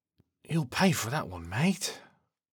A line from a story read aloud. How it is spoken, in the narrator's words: says in a groggy voice as he sits up